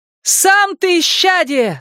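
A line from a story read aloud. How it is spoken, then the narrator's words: Shouting again. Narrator (Russian): снова прокричала она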